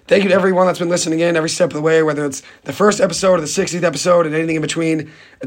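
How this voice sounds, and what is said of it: Worn-out, hoarse voice. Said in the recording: “apologize for my voice ... my voice is kind of toast”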